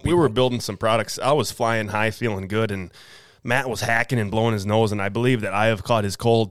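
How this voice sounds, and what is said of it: Slightly nasal, hoarse voice. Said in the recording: “If I sound a little nasally, a little hoarse ... just in case I sound a little sick”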